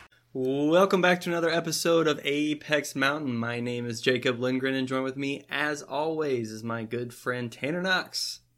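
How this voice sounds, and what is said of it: Sick-sounding voice. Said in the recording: “I'm a little sick this time ... sorry for my voice”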